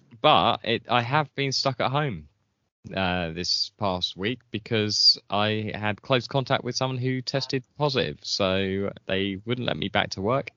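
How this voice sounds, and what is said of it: Congested voice from a cold. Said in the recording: “I've got a bit of a cold, so if I sound a little different”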